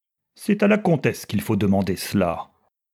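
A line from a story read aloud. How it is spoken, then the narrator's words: Curt. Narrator (French): dit-il sèchement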